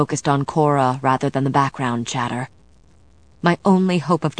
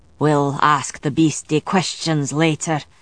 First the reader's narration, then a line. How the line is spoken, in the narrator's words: Gallowglass said, his voice grim